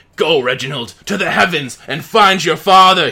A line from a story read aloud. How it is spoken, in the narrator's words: he yells